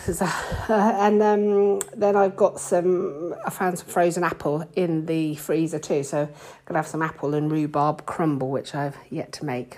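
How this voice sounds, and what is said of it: Out of breath, breathless speech. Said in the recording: “I can tell I'm out of breath... the reason I'm out of breath is because”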